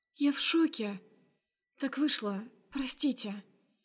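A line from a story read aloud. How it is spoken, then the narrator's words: Barely audible babbling. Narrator (Russian): Лепечу еле слышно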